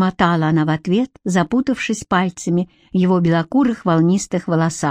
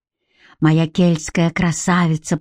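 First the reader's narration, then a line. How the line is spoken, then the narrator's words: Moaning. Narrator (Russian): простонал он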